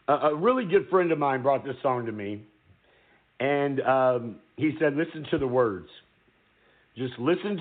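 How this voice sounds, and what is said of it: Choked-up, emotional voice. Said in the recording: “I'm getting a little choked up.”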